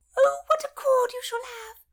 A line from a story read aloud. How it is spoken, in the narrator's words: squeaked Lady Paget